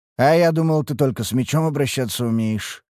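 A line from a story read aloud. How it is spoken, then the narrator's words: Amused snort. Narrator (Russian): хмыкнул я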